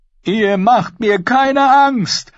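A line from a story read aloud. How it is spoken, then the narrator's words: Called out. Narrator (German): rief er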